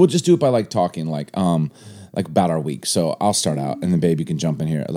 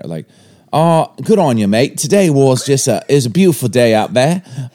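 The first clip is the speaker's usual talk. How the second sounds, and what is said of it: Put-on New Zealand accent. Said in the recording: “I'll go first with my New Zealand accent ... We're going to go New Zealander, which is probably going to be a mix of British and whatever this is”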